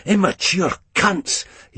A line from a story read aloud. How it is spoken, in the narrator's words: he hisses